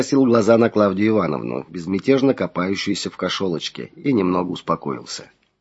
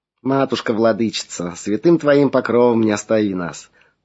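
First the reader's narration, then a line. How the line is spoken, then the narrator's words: Sighing. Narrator (Russian): вздохнула Клавдия Ивановна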